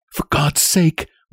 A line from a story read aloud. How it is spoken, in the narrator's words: whispered Nellie